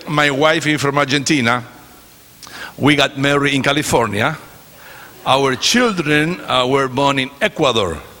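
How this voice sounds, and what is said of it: Chilean Spanish-accented English. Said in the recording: “if you want to hear a southern accent, this is it ... You cannot get southern than this. Because I am from Chile.”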